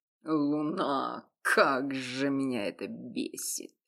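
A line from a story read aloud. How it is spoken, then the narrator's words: Muttered aloud. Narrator (Russian): пробормотал вслух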